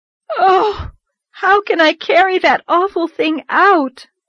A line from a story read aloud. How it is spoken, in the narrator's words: moaned Anne with a shudder